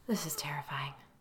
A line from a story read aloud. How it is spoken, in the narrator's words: Chris whispered, almost as if he hadn't meant to say it aloud